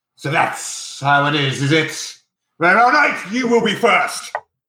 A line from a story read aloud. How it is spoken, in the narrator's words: Drax snarls and says